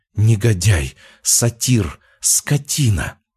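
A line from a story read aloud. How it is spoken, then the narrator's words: Whispering. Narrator (Russian): Она шептала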